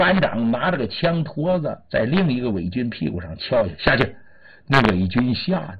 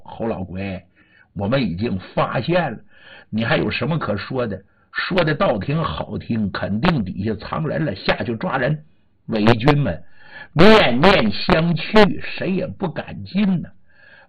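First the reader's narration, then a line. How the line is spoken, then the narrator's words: Laughing. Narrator (Chinese): 尹麻子一笑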